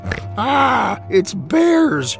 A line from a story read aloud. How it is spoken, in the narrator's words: she screamed